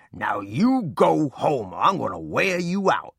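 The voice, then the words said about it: Deep stern voice. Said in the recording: “In a deep voice,”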